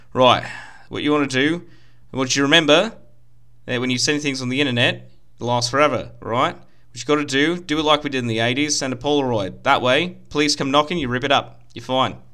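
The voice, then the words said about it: Put-on Australian or New Zealand accent. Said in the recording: “Every time you do your Australian accent, you know what you sound like? You sound like that rock dude from Thor Ragnarok ... I can't do an Australian accent. I only know how to do a New Zealand one”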